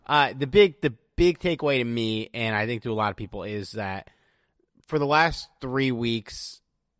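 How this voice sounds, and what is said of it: Slow, low-energy speech. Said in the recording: “I'm talking so slow. ... I'm performing at like 50% capacity tonight.”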